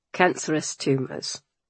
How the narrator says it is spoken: Church replied stiffly

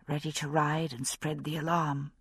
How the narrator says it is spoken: I said, half under my breath

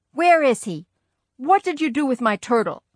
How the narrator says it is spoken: I yelled

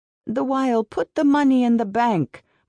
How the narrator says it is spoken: mother begged

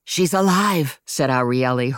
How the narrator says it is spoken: her voice raspy with wolf

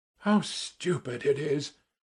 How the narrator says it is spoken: muttered Simonov

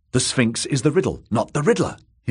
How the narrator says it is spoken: he blurted

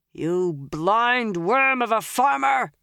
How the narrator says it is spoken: he roared toward the man in the bow

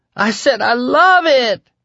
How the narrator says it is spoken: she screamed

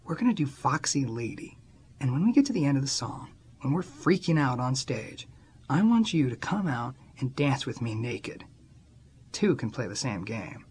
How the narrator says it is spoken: I whispered in her ear

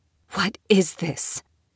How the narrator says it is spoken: She whispered instead, just loud enough that one of the people dragging her by the arms would be able to hear

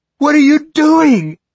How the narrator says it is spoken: Amanda screamed

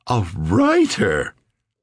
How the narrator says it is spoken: his mother said at that instant, her voice way up out of its normal register

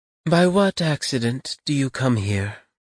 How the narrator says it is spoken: she asked again, with a sigh

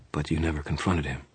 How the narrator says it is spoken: I said quietly

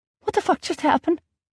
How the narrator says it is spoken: I squeaked out

